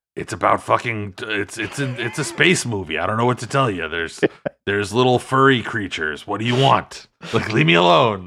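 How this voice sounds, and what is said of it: Harrison Ford impression. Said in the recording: “I didn't know I was going to get impressions on this episode ... that's my impression of Harrison Ford in the very famous interview”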